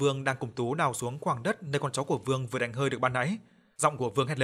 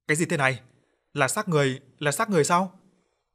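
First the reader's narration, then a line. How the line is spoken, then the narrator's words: Shocked scream. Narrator (Vietnamese): Vương hét lên vì lúc này thứ vừa được con chó của anh dùng miệng cắn chặt mà lôi lên là một bàn tay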